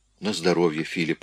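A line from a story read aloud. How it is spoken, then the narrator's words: Quiet. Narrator (Russian): тихо сказала она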